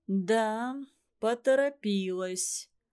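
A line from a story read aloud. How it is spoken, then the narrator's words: Harsh, hard. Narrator (Russian): жестко произнес Иван Иванович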